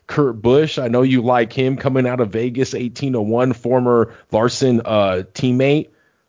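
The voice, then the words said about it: Excited, pumped-up voice. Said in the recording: “I'm juiced, guys. You guys can hear it in my voice”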